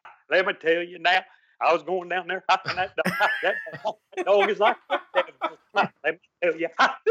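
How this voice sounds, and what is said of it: Put-on Southern preacher accent. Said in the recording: “I can hack preach... Variation of, you know, Southern accent.”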